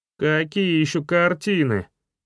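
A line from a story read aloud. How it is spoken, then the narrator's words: Rude interjection, young man. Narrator (Russian): довольно грубо встрял пришедший парень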